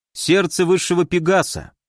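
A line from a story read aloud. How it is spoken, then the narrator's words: Reading aloud, then a snort. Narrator (Russian): прочитал я и хмыкнул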